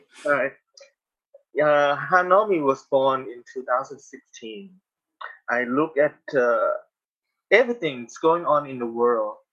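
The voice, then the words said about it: Non-native English accent. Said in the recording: “English is not my language, so I have accents”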